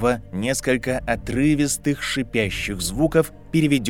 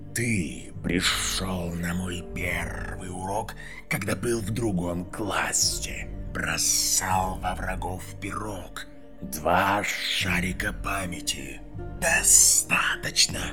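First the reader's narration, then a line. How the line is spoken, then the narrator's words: Hiss. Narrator (Russian): прошипел Гарри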